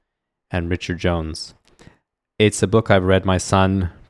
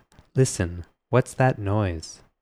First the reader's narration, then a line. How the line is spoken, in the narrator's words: her voice was too small to be heard